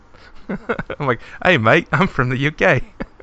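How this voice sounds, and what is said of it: Put-on Australian accent. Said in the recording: “Every time I try to imitate that accent, I just usually start doing an Australian accent ... oh, wait, that's not right.”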